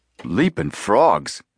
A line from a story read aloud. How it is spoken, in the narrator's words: Frank exclaimed